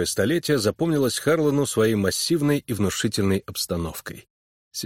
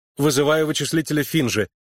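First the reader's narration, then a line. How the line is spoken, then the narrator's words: Hurried reply. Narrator (Russian): торопливо ответил связист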